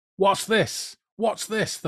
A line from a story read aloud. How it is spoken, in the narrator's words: the Fireclown was shouting